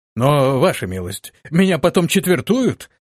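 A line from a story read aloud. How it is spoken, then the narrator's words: Terrified exclamation. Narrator (Russian): воскликнул в ужасе воин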